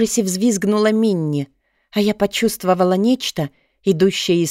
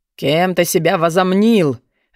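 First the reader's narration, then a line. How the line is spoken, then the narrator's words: Angry dragon barking. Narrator (Russian): в гневе гаркнул дракон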